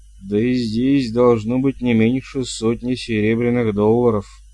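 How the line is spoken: Groaning. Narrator (Russian): простонал Богис

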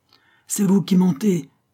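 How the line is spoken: Man exclaiming. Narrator (French): s'écria le poète policier

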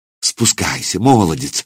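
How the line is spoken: Woman pleading. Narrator (Russian): взмолилась женщина

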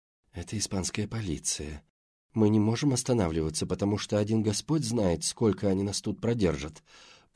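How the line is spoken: Whispered. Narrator (Russian): прошептала Келли

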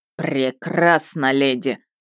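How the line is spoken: Growling. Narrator (Russian): рыкнул мужчина

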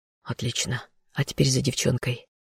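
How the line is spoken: Whisper. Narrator (Russian): прошептал я

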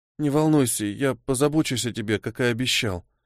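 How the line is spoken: Mumbling. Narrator (Russian): пробормотал он

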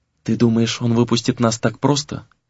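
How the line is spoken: Sudden quiet question. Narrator (Russian): вдруг тихо спросила она

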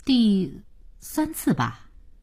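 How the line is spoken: Slow, cautious answer. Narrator (Chinese): 慢慢的、谨慎的答道

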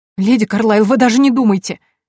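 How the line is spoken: Sobbing. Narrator (Russian): всхлипнула Мина

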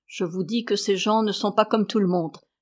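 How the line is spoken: Murmured. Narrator (French): murmura-t-il

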